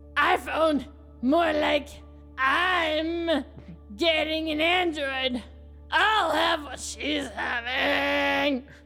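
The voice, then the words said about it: Demon character voice. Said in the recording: “Why the voice? ... a demon voice”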